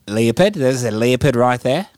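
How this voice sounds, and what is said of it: Put-on accent, done well. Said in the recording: “Very good. Thank you for the accent.”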